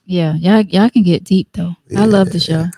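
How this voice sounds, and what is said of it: Low radio voice. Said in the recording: “you said that kind of real. You said that kind of low. ... That was my radio voice coming out.”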